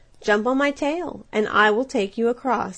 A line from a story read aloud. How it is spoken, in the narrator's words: said the fox